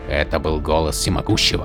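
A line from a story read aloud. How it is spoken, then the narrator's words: Whispered question. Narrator (Russian): Шепотом спросил Ватах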